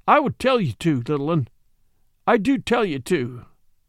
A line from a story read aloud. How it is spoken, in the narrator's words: he cried